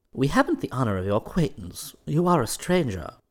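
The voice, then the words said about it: Dignified character voice. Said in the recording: “replied a bullfinch in a dignified voice.”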